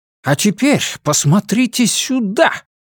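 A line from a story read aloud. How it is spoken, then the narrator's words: Triumphant exclamation. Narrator (Russian): Торжествующе воскликнул Тауэр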